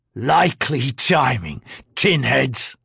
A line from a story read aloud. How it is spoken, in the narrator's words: Herboric spat heavily